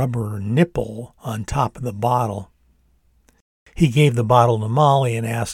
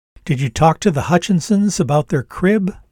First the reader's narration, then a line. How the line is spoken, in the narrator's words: she called out to Dad in the kitchen